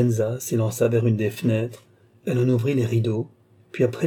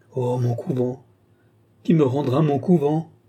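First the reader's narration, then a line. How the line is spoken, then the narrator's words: Tearful cry. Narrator (French): s'écria Lorenza en fondant larmes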